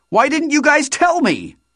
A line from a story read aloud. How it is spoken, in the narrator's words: I shouted